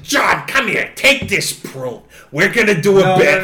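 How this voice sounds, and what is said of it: Imitates another person's voice. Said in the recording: “That was a Gilbert impression. ... what the hell is that voice?”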